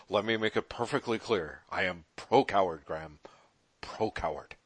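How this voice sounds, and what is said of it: Richard Nixon impression. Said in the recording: “I feel like Richard Nixon ... That was a great impression ... I was pretty good, Nixon.”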